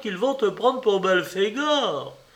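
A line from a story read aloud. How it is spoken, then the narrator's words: Wife cried out. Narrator (French): s'écriait sa femme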